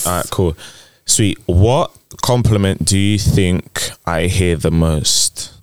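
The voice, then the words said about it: Deep voice. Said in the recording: “You have a deep, deep voice ... You have a really good radio voice.”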